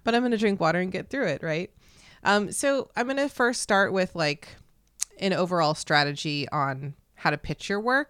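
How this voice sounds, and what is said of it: Slightly raspy, just-woken voice. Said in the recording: “I woke up from a nap ... my voice is a little, I don't know, it's still in nap land. It's a little raspy”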